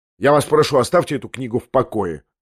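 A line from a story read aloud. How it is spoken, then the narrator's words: Sharp. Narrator (Russian): резко проговорил он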